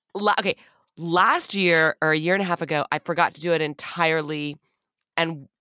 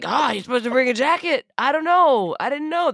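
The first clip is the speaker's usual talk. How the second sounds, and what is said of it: Imitates another person's voice. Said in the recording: “That's my Ron DeSantis impression.”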